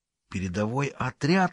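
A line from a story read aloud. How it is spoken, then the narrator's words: Whispered signal. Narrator (Russian): шепотом просигналил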